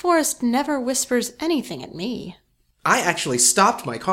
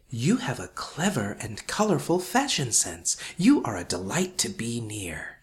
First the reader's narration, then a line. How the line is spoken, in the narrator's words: It also whispered